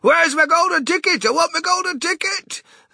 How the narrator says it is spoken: kicking and yelling in the most disturbing way

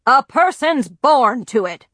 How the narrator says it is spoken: grandfather boomed

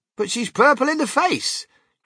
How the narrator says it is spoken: cried Grandpa Joe

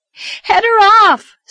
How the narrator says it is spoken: screamed Anne

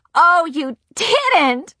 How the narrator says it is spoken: Nancy said, laughing

